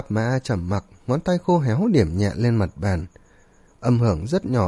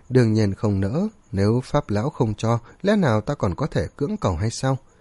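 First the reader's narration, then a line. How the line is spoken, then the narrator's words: Smiling, sarcastic. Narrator (Vietnamese): Mỉm cười, Tiêu Viêm châm chọc nói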